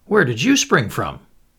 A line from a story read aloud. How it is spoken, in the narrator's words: asked Anthony, irritably